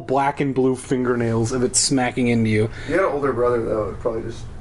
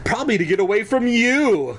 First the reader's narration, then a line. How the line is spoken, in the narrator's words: Kara exclaimed